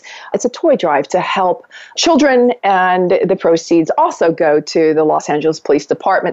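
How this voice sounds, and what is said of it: Philadelphia-area accent. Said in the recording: “she's from Delaware and I'm from Philadelphia, and we have the same accent”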